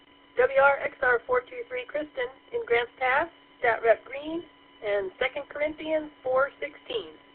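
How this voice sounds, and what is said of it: Excellent radio voice. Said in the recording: “you have an excellent radio voice.”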